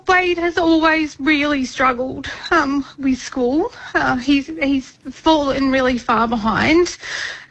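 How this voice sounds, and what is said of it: Emotional, choked-up voice. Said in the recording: “I'm going to get a bit emotional”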